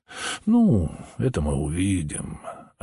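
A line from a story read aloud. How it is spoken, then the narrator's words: Calm reply. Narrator (Russian): ответил спокойно Холмс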